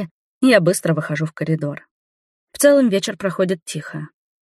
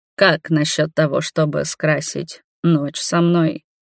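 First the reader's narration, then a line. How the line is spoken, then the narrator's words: Hoarse. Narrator (Russian): хрипло спрашивает он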